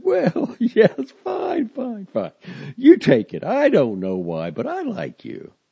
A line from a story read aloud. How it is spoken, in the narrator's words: she laughed a large, loud laugh and clicked her tongue and said